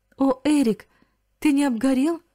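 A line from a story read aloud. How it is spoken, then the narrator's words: Joyful exclamation. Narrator (Russian): воскликнула она вне себя от радости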